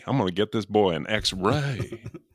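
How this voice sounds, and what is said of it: Gregory Peck's exaggerated Southern accent. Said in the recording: “he might have been a, a, worse offender than De Niro on the uh, Southern accent. He called it an X ray.”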